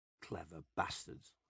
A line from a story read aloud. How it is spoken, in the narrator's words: mutter